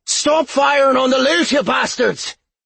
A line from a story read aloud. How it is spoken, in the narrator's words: he shouted